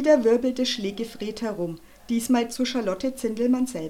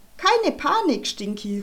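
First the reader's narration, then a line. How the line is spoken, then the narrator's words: Cheerful call. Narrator (German): rief Charlotte fröhlich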